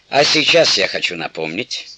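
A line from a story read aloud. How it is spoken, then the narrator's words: Playful grumble. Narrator (Russian): шутливо заворчал Папуна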